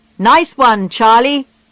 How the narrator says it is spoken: they shouted when they heard the news

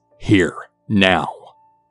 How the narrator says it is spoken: My mother growls

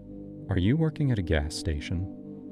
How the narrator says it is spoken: she said, her voice too calm

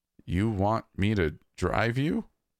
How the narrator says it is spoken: I stammered

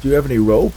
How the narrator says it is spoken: Hank asked

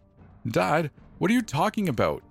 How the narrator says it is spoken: Darren shouted

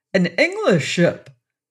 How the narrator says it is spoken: he cried

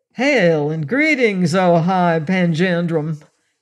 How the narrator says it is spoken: Seaton said cordially, his deep voice fairly booming out in the dense, heavy air

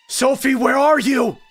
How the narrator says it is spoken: I screamed frantically

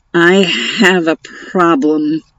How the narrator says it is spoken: announced in a muffled voice

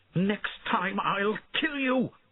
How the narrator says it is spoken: she shouted at him

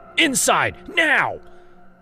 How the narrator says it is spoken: I screamed again

